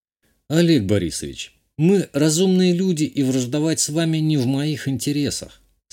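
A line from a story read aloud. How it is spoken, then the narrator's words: Calm reply. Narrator (Russian): спокойно ответил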